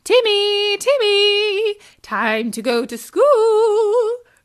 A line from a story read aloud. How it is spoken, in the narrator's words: called out